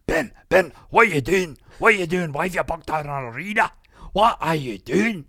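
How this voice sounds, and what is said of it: Put-on Scottish accent. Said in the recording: “I'm going to try and do a Scottish accent.”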